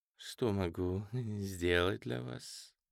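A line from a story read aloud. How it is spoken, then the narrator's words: Purring. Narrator (Russian): промурлыкала она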